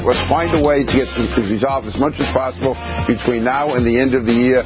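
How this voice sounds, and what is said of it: New York accent. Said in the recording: “New York Congressman ... Can't you tell by the accent?”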